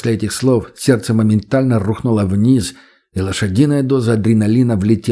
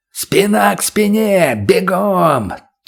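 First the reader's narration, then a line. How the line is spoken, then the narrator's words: Roar. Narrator (Russian): взревел Шип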